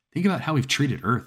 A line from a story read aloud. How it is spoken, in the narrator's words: I snapped